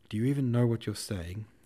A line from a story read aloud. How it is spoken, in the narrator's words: he said in a trembling voice